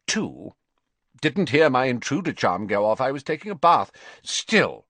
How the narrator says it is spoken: he added sternly, seeming to pull himself back together again

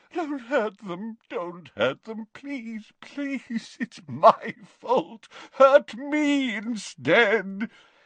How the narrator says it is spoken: he moaned

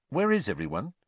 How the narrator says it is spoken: said Harry

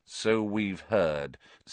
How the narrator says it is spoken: said Lupin, more coldly

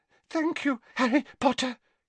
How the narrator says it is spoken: he panted

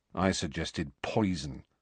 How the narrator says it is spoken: said Ron grimly

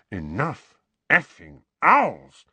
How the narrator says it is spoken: muttered Uncle Vernon distractedly

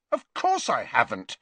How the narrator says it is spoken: said Harry indignantly

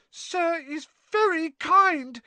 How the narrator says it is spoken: he squeaked, his eyes brimming with tears again

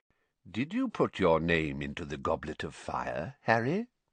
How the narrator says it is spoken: Dumbledore asked calmly

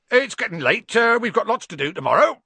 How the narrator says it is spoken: said Hagrid loudly

